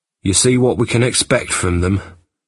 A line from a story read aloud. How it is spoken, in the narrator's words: said Jack bitterly